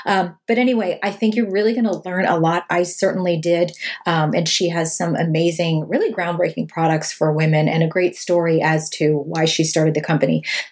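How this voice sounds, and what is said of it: Slightly hoarse, strained voice. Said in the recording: “I'm losing my voice a little bit today.”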